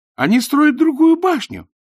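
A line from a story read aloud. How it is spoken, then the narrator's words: Exclamation. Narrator (Russian): воскликнул Найджел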